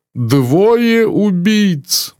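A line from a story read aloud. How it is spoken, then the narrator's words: Groaning. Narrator (Russian): застонал мсье Бук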